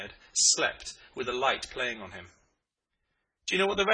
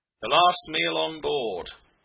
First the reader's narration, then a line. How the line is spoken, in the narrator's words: he explained solemnly